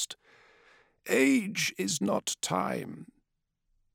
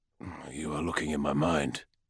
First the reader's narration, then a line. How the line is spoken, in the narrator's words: he growled